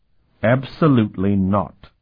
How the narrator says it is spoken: Sparhawk said sharply

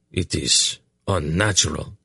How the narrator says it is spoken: he growled

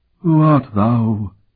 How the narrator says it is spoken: the ghost demanded in a hollow voice

